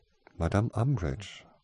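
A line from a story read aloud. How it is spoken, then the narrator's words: Gentle interruption. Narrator (German): unterbrach Gloria sanft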